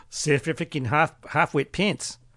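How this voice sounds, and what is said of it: Bad put-on South African accent. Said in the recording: “my South African accent. That's pretty bad.”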